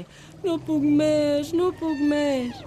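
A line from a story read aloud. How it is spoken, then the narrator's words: Groaning. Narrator (Catalan): gemegant digué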